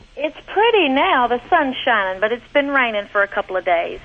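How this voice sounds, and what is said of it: Southern US accent. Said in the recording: “I love that southern accent ... I love that accent”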